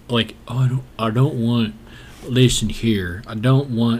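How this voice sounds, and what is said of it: Put-on rural country accent. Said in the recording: “I shouldn't even use that accent because that's not fair. Because plenty of country people”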